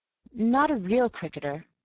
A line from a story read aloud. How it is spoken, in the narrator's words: I was stammering